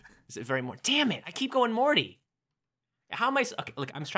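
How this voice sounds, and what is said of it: Usual voice. Nothing is said of it.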